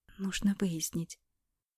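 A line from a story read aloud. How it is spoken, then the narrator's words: Quiet. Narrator (Russian): говорила Алена тихо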